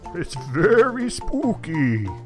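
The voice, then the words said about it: Spooky voice sounding like old man. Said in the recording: “Your spooky voice still sounds like an old man.”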